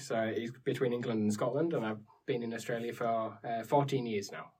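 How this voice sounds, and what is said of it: Northern English accent. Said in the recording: “Where's that accent from? ... I'm from the north of England”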